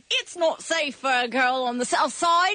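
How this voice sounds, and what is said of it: Convincing put-on British accent. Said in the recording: “her British accent ... she goes the other way really well ... It's uncanny.”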